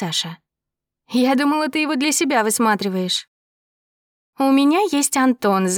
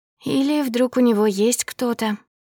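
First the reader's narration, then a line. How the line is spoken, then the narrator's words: Hoarse speech. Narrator (Russian): хрипло проговорила она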